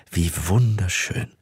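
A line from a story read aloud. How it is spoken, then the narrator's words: Murmured. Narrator (German): murmelte sie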